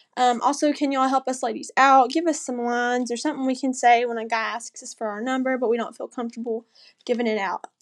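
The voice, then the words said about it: Southern American accent. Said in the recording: “Gotta love the Southern accent.”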